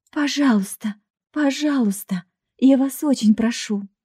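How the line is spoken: Woman's plaintive voice. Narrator (Russian): женский голос жалобно произнес

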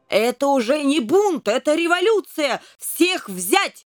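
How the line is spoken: Shouting. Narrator (Russian): закричал король

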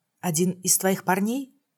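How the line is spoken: Quiet question. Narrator (Russian): Тихо поинтересовалась

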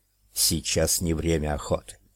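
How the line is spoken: Hissed. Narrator (Russian): прошипела ведьма

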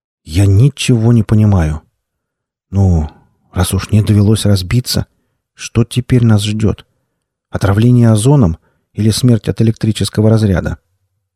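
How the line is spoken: Reluctant sigh, weary speech. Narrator (Russian): Денис нехотя вздохнул и устало произнес

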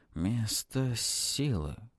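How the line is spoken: Hoarse voice. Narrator (Russian): хриплый голос отвечает нам

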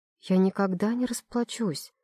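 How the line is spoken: Barely audible whisper. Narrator (Russian): шепчу едва слышно

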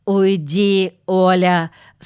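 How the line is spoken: Stern. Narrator (Russian): строго сказал Юрка

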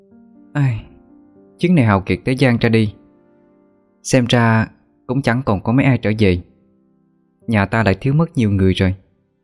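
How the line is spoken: Sighing. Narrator (Vietnamese): Thủy Thần chợt lại thở dài nói

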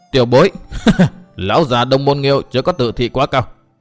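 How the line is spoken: Loud laughing speech. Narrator (Vietnamese): Độc Trung Chi Độc cười to nói

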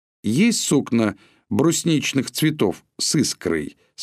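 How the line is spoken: Plain. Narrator (Russian): спросил Чичиков

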